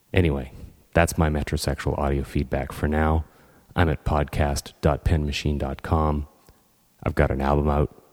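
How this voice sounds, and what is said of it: Deep radio announcer-like voice. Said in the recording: “right now I've got this great radio announcer voice. I wish I could keep it without having the cold.”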